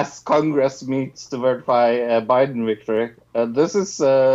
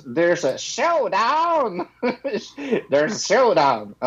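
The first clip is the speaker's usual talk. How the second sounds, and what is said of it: Fake American accent. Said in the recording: “I like to say it in my, my fake American accent.”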